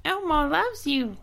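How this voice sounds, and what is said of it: High-pitched Elmo impression. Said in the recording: “I can do high voices. ... I can only go super high, like Mickey Mouse. ... Can you do Elmo?”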